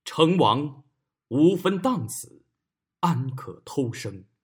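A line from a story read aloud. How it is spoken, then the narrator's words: Sighing skyward. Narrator (Chinese): 锐 仰天叹曰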